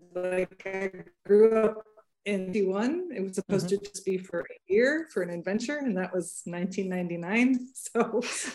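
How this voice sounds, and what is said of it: American accent. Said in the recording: “you can tell by my accent, I'm not from Ireland ... Big Yank accent”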